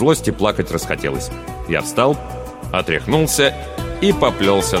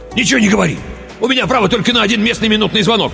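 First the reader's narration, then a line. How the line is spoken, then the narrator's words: Rapid chatter. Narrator (Russian): тараторил он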